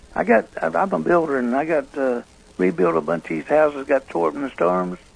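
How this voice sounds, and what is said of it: Failing, weak, strained voice. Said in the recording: “I got a little trouble with my voice... Mold in my lungs. Now I'm shutting down. My voice is shutting down now”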